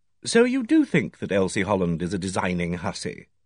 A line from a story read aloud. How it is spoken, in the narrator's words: I said quietly